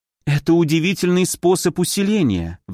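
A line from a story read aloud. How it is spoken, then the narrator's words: Sighing. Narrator (Russian): вздохнула Амина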